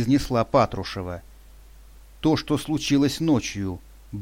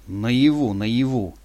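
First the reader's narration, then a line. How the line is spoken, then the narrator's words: Muttering. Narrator (Russian): пробурчал я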